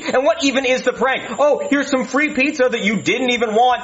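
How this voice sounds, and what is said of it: Angry yelling rant. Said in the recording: “I don't know why I'm yelling at you”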